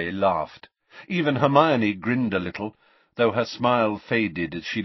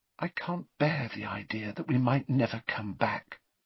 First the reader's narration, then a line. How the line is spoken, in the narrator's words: she said softly